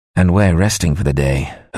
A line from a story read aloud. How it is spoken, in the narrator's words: Hook said grimly